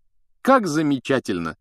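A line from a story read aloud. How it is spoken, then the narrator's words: Exclaiming. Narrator (Russian): воскликнула Гермиона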